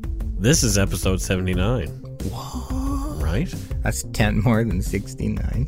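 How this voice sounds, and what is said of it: Nasal, congested voice. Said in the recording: “Came home with the CrimeCon crud, so if my voice sounds a little nasally this week”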